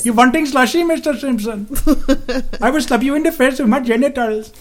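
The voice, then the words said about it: Put-on Pakistani cartoon-character accent. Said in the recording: “what accent was that? Wasn't that the Pakistani guy from The Simpsons?”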